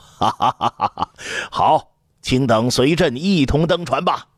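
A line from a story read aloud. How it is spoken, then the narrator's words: Laughing heartily. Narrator (Chinese): 刘彻大笑道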